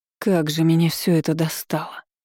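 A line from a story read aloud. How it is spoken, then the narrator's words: Heartfelt exasperated exhale. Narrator (Russian): с чувством выдохнула Диана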